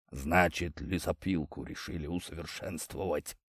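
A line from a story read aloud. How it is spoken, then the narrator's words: Rough, gruff voice. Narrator (Russian): грубым голосом уточнил Владимир Михайлович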